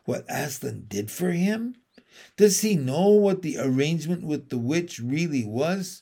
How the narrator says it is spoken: whispered Lucy to Susan

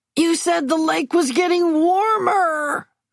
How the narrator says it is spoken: Maisie yells

